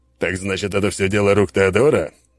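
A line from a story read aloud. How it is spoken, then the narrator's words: Satisfied grunt. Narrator (Russian): с удовлетворением хмыкнул он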